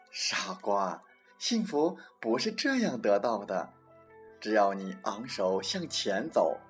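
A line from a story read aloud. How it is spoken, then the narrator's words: Lioness, laughing. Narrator (Chinese): 母狮子笑道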